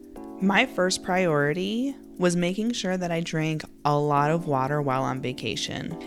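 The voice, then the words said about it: Slightly raspy voice. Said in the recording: “my voice sounds a little raspy ... forgive my voice”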